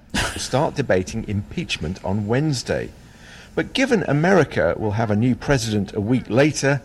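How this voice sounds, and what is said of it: British accent. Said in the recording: “this is a BBC, hence the British accent.”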